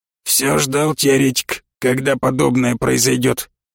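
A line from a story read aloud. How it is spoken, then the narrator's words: Quiet speech. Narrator (Russian): негромко сказал он, чтобы Жамыхов его не услышал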